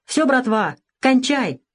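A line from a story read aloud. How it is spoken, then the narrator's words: Shouted. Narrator (Russian): крикнул водитель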